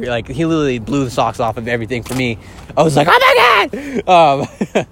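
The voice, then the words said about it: Loud yelling, strained voice. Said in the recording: “losing my voice ... why I'm yelling”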